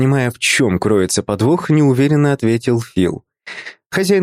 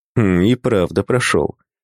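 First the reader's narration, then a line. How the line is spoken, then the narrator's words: Snort. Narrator (Russian): хмыкнул Боб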